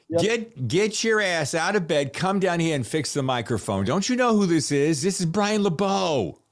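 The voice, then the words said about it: Weak attempted Boston accent. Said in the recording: “I sense you're picking up my Boston accent. ... I'm trying to. I'm not very good at it”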